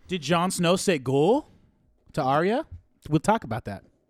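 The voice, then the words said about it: Put-on accent, teased as Irish. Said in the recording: “Was that your accent? ... what is he, fucking Irish? ... That's not Irish. ... That's Winterfellian. ... Wasn't British.”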